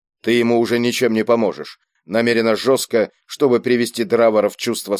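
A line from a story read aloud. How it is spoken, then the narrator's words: Plain. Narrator (Russian): сказал Кийск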